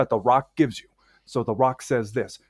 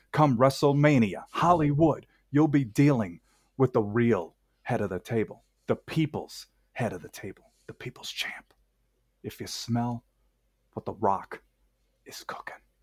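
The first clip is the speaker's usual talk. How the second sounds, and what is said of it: Great impression of The Rock. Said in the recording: “that was a great impression. does the best Rock impressions. It does a great Rock impression.”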